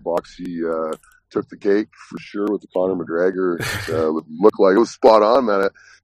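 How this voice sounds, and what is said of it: Raspy, partly lost voice. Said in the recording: “a little raspy here. Lost my voice a little bit singing”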